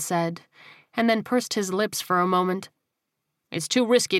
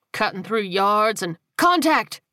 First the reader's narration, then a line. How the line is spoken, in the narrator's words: Whittaker barked